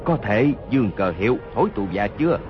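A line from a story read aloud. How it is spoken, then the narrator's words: Low voice, wounded. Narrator (Vietnamese): Hốt Đô Hổ toàn thân giấy máu, hạ giọng nói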